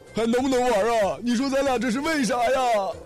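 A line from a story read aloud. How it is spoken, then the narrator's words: Loud shout. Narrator (Chinese): 他大叫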